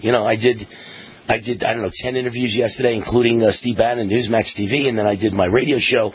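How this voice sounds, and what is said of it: Hoarse, worn-out voice. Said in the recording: “my voice is gone”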